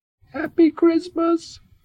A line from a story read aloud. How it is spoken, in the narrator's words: whispered the squeak shyly